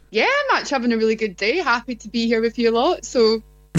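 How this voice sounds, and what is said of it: Speaks with a distinctive accent. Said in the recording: “gorgeous accent ... Okay, that's the accent.”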